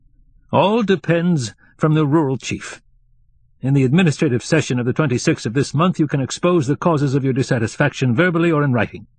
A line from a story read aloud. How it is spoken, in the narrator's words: said roughly and quickly